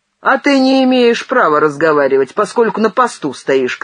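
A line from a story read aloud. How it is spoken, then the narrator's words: Shout. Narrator (Russian): крикнул Бандей Кульку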